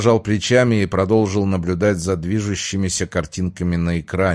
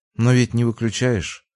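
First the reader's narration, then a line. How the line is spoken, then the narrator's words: Calm. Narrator (Russian): ответила спокойно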